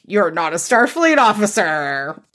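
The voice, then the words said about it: Picard impression. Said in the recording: “my Picard impression”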